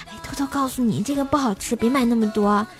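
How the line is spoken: Soft whisper. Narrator (Chinese): 他轻声的跟我说

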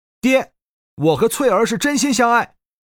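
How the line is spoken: Stubborn, loud. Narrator (Chinese): 年轻人固执的，大声说道

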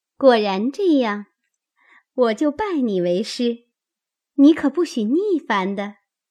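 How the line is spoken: Laughing. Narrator (Chinese): 香菱笑道

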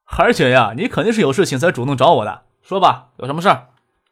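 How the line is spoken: Joking over the phone. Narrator (Chinese): 崔玉恒在电话里跟他妹妹开玩笑

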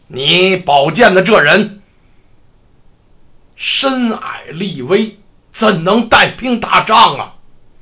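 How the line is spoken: Angry rebuke. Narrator (Chinese): 阖闾怒斥武元

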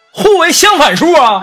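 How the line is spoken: Angry woman shouting. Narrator (Chinese): 女人继续气愤的喊道

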